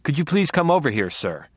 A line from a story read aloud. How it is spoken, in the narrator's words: Deborah ordered with truly veteran cop technique